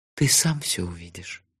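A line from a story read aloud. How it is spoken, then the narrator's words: Soft, gentle. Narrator (Russian): мягко сказала Техи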